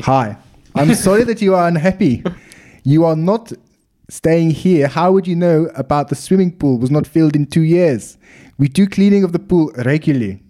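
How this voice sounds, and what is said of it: Put-on South African accent, rolled R's. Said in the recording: “Can I do it in South African accent? ... You're rolling the R's.”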